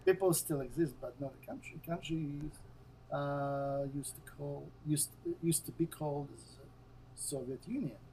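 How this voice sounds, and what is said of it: Foreign accent. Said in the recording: “my accent. ... Oh, you have an accent.”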